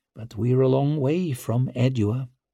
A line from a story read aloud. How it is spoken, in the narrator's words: murmured Vic